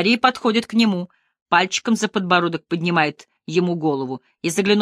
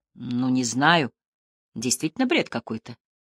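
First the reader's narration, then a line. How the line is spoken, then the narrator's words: Timid chuckle. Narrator (Russian): сознает Шерман и робко усмехается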